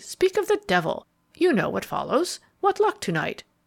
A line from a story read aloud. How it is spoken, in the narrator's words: Barton cheerfully